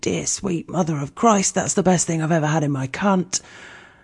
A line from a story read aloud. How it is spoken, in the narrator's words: would at least like to moan or whimper